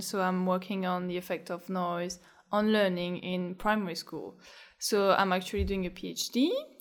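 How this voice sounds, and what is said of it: Noticeable French accent in English. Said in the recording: “I did some studies in France, in Paris. So as you can probably hear from my voice”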